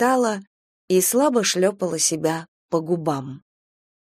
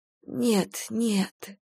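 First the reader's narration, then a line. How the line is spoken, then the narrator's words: Sleepy mumble. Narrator (Russian): бормотала она, засыпая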